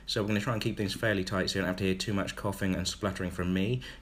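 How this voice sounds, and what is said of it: Congested voice from a cold. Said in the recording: “I also have a bit of a cold. You might be able to hear that in my voice.”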